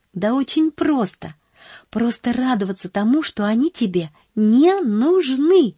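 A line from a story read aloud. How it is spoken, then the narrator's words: Exclaiming. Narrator (Russian): воскликнула Поллианна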